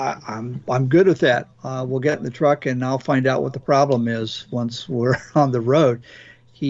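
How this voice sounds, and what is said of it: Usual voice. Nothing is said of it.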